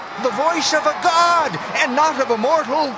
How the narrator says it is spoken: The people kept shouting

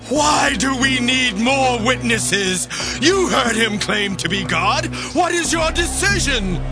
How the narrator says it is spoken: the high priest shouted

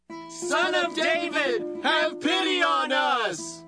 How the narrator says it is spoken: two blind men began following him and shouting

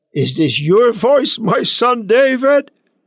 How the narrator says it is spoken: Saul lifted up his voice and wept

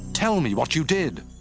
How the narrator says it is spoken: Saul exclaimed

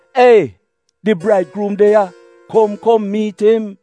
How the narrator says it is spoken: in the middle of the night, somebody shout out

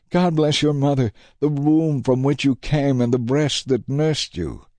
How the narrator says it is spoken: a woman in the crowd called out

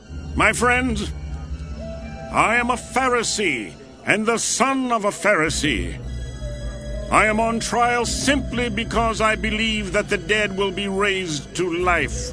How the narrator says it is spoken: he shouted

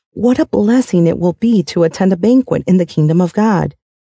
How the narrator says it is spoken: a man sitting at the table with Jesus exclaimed

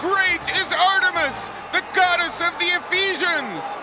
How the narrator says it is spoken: they all shouted for 2 hours

